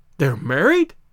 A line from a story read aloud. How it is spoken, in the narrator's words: I gasped